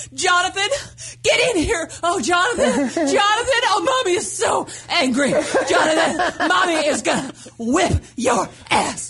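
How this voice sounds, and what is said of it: Screaming imitation of an angry mother. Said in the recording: “She's screaming”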